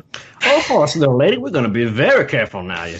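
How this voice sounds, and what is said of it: Put-on character accent. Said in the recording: “put on his bre- his best uh, Enrique Duchamp accent”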